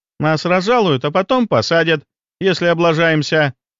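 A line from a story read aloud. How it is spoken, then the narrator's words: Cheerful. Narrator (Russian): весело произнесла Аленка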